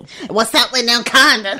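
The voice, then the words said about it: Impression of Shekinah. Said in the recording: “your impression of Shekinah”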